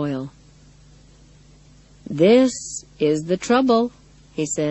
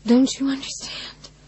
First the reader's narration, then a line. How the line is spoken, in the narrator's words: She whispers